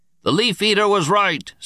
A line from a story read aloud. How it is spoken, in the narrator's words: Speaker roared